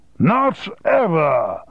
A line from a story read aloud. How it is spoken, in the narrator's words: shouted Sir Colin down the line